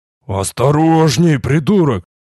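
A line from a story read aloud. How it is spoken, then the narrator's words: Hiss. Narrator (Russian): Раздалось шипение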